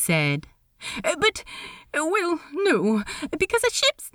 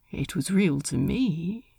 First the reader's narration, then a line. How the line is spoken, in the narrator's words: Ed said quietly